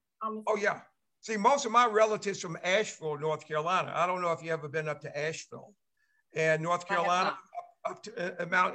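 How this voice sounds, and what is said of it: Slight Southern twang. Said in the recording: “you can still hear a little Southern twang when you speak. You can still hear it.”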